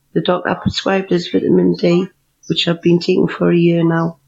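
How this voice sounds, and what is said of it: Charming foreign accent. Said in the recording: “thank you for that charming accent.”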